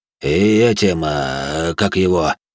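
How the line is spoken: Muttered. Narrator (Russian): пробормотал маркиз

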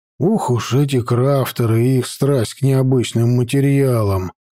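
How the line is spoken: Grumbling. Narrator (Russian): проворчал я

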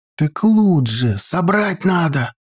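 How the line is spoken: Excited whisper. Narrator (Russian): возбужденно прошептал тот

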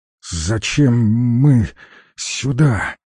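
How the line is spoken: Barely squeezed out. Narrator (Russian): еле выдавил он

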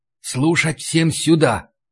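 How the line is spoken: Whispering. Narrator (Russian): зашептал я

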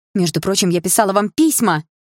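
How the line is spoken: Indignant. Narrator (Russian): возмущенно сказала я

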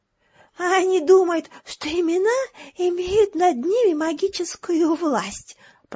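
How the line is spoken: Whisper. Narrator (Russian): прошептал он

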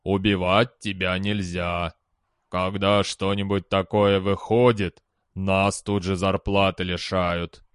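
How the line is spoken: Gloomy. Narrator (Russian): мрачно сказал Марена

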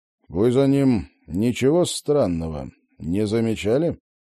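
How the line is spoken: Forced confident menacing tone. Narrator (Russian): Роджер и сам себя плоховато понимал, но старался держаться уверенно и грозно

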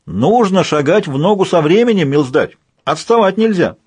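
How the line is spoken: Excited shout. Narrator (Russian): крикнул Людзе, возбужденно прыгая с ноги на ногу

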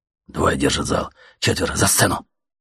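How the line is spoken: Whisper in ear. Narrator (Russian): шепнул кто-то на ухо

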